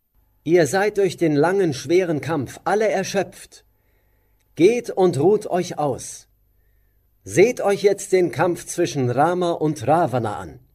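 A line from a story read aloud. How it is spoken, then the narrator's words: Solemn. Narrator (German): rief Rama die Affen zu sich heran und sagte mit feierlichem Ernst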